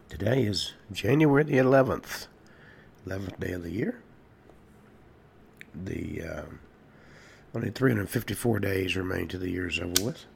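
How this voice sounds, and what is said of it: Voice audibly affected by illness. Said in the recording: “as you can hear from my voice, I still have whatever this is. Seems to be getting worse.”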